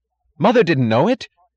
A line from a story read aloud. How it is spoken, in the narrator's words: cried Philip, then caught himself and cried louder